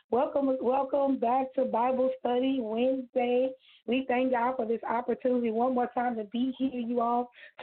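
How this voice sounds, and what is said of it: Slightly hoarse voice. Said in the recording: “my voice is a little bit hoarse today”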